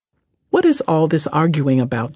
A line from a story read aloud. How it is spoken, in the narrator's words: Jesus asked